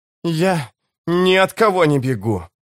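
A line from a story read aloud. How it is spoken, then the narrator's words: Hoarse rasp, warrior. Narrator (Russian): прохрипел воин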